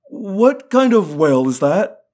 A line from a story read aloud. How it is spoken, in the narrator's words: I croaked